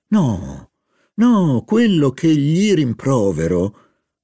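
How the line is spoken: Tender, elated voice. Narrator (Italian): riprese con voce tenera, come una donna ebbra del suo successo

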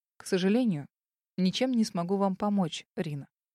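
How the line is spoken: Stiffly formal tone. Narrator (Russian): отозвался самым официальным тоном

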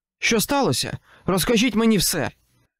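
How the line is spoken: Shouted after a pause. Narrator (Ukrainian): крикнув він після паузи

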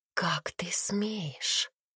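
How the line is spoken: Angry whisper. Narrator (Russian): прошептала она, слишком злая, чтобы кричать

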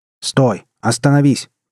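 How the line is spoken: Shouting after someone. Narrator (Russian): прокричал ему вслед капитан

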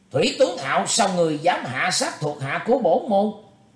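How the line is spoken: Shouting. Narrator (Vietnamese): quát lên

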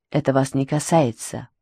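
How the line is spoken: Whispered. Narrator (Russian): прошептал он

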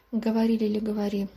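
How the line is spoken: Flat colorless voice. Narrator (Russian): бесцветным голосом проговорил капитан, догадавшись, о чем пойдет речь

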